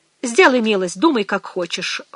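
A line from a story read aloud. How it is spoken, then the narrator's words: Cold. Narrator (Russian): холодно сказала Мэгги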